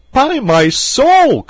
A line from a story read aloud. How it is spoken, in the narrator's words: cried Gilbert